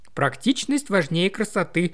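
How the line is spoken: Laughing. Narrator (Russian): засмеялась

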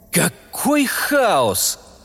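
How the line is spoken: Sorrowful exclamation. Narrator (Russian): воскликнул Гик с прискорбием

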